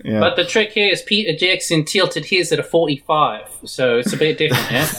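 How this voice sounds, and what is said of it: Convincing put-on New Zealand accent. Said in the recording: “Wow, that was really good. ... That was a pretty good Kiwi accent. ... we had Korg in the studio”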